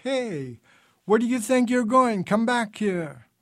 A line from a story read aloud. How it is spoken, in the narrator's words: The officer yelled